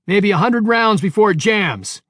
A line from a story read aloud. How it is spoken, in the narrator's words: he shouted